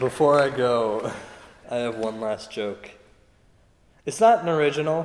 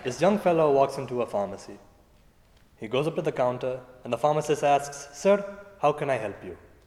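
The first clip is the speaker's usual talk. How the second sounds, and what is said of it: Imitates another person's accent. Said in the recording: “for the sake of authenticity, I'm going to do it in his accent.”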